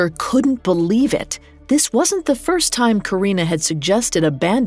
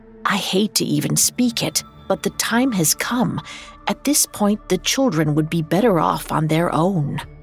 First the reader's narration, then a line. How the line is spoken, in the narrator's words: Karina whispered